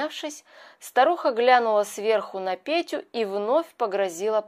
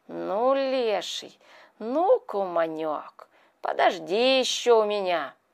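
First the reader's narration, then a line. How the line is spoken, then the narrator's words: Spiteful female muttering. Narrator (Russian): Плюнула она бормоча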